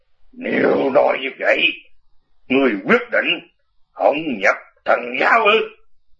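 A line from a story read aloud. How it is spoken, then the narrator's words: Cold, suppressed anger. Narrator (Vietnamese): Nhầm Ngã Hành lòng đầy tức giận, lạnh lùng nói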